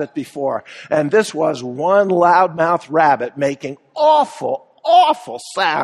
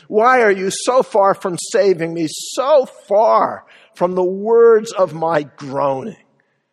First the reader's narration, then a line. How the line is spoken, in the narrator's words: David roared in desperation